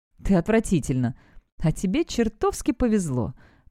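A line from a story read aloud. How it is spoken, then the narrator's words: Retorting. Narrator (Russian): парирует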